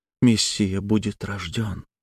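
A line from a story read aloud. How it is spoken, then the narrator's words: Whispering close up. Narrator (Russian): шепнула она мне в лицо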